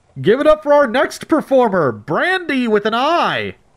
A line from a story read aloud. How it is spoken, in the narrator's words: He roared